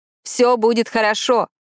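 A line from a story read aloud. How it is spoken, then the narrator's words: Shouted. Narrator (Russian): крикнул Рави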